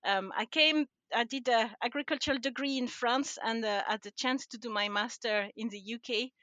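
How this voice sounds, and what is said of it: French accent in English. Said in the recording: “I'm originally from France. And I don't think I've lost my accent after all these years.”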